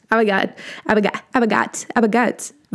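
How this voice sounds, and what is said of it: Made-up invented dialect. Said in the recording (German): “ich weiß nicht, was das für ein Dialekt sein soll, aber er ist da. Es ist meiner. Man kann doch auch einfach selbst einen Dialekt erstellen.”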